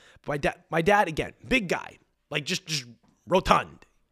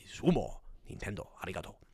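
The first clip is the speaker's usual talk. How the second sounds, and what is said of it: Attempted Japanese accent. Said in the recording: “I don't even know if that's how Japanese people, that may have sounded more Korean ... That's my best attempt off the dome at a Japanese accent.”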